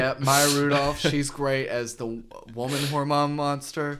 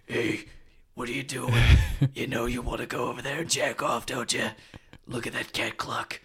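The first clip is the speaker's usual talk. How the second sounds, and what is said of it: Hormone monster character voice. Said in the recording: “you do a pretty good hormone monster impersonation ... it's spot on, man. I mean, it's really good stuff.”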